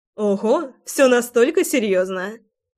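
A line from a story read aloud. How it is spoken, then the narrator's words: Laughing. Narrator (Russian): рассмеялась я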